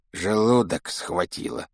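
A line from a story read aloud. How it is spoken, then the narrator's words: Grumbling mutter. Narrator (Russian): пробурчал Рон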